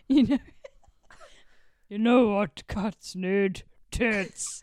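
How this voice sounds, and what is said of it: Generic dirty old man voice. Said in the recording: “It's like a dirty old man. ... That's my generic man, dirty old man. ... generic man impression”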